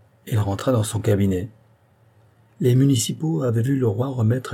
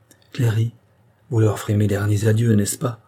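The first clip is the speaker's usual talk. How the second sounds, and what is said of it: Deeply sorrowful, pained tone. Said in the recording (French): “avec le plus douloureux accent”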